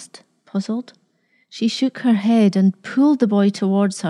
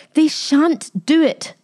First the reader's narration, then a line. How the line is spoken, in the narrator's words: she said sharply, with an anger he had never seen before